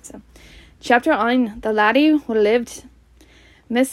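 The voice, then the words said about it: Attempted Scottish accent. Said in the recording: “I wanted to practice my Scottish accent ... I don't think I have a good one at all”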